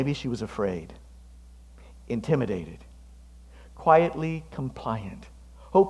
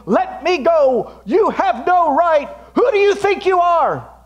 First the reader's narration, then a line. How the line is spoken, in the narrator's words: Maybe she was shouting